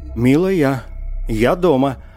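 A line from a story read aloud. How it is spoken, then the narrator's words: Joyful shout. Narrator (Russian): радостно закричал Пикеринг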